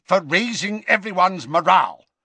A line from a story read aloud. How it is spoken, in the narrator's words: snapped Scrimgeour